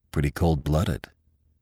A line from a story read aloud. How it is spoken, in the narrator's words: muttered Lynn